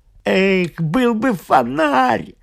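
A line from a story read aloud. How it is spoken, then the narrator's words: Groan. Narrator (Russian): простонал Томас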